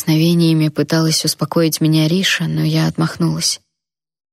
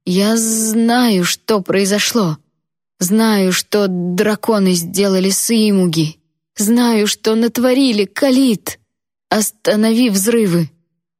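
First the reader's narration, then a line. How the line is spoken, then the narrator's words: Desperate shout. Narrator (Russian): Я перешла на отчаянный крик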